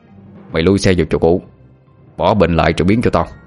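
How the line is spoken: Harsh commanding growl. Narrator (Vietnamese): nó gằn giọng hướng về phía Tuấn rồi nói như ra lệnh

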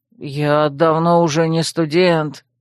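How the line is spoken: Weary habitual moan. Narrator (Russian): привычно простонал ректор

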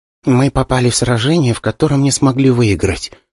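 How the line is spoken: Young woman whispering. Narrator (Russian): шепотом ответила девушка

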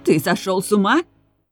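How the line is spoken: Near-hysterical woman shouting. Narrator (Russian): кричала женщина, еле сдерживая истерику

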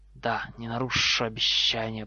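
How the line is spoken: Hiss. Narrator (Russian): прошипел Гарри

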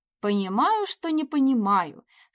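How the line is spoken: Snide snort. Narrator (Russian): С ехидством хмыкнул Кирилл

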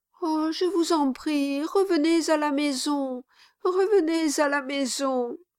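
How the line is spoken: Said with sobs. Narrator (French): dit Mistress Quilp avec des sanglots

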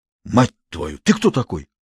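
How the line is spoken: Stunned mutter. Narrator (Russian): ошеломленно пробормотал Тимохин

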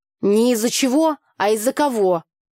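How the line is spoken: Snapped. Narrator (Russian): огрызнулась Таня

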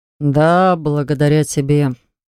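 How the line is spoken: Sleepy reply. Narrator (Russian): сонно откликнулся Хакл

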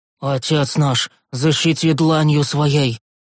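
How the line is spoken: Breathy exhale. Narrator (Russian): Выдохнул предводитель гномов

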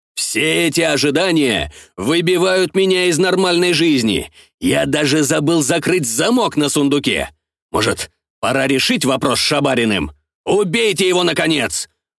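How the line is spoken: Shouted by office owner. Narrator (Russian): выкрикнул хозяин кабинета

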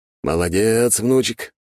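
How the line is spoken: Old man's approving grunt. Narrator (Russian): одобрительно хмыкнул дед

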